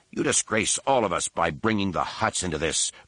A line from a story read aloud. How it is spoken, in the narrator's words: said angrily